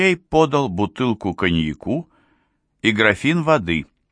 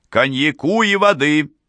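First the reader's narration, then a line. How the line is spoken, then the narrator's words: Shouting. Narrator (Russian): крикнул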